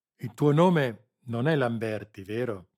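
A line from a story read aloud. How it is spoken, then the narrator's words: Plain. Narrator (Italian): chiese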